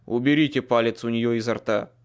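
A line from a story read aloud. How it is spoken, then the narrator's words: Stern. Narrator (Russian): строго сказал Майкл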